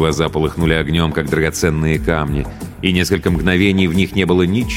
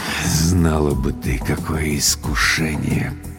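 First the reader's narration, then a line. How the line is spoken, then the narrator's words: Muttered. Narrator (Russian): пробормотал Владлен Борисович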